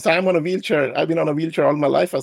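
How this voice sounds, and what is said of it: Indian accent with American influence. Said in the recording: “The accent is a result of me having traveled to the U.S. since I was 13”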